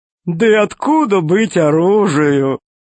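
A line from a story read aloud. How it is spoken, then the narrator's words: Fat man laughing. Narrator (Russian): засмеялся толстяк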